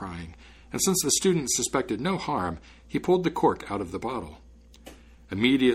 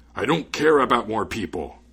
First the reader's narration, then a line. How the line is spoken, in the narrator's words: exclaimed the spirit